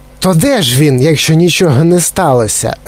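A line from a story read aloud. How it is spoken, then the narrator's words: Female bark. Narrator (Ukrainian): гаркнула пані Глуб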